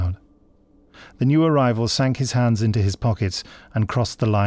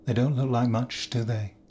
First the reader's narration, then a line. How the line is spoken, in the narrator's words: said quietly